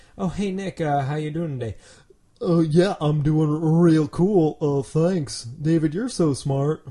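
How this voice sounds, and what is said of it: Imitates another person's voice. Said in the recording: “my impression of you”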